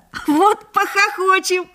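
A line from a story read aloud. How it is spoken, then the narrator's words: Laughing. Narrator (Russian): засмеялся Лёшка Хвальба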